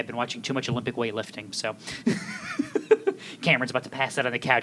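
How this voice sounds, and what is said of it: Weird put-on accent. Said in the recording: “this weird accent”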